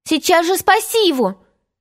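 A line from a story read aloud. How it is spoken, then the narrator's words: Horrified shouting. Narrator (Russian): кричала Венди, с ужасом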